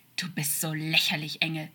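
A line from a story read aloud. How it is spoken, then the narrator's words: Hissing like a snake. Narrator (German): stieß er zischend wie eine Schlange hervor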